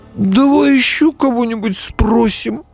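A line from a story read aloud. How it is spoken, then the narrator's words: Pleading fawn. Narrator (Russian): взмолился олененок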